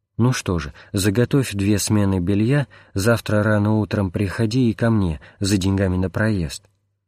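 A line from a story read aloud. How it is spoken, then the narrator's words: Affectionate, kind. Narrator (Russian): Отец Иона ласково принял его и сказал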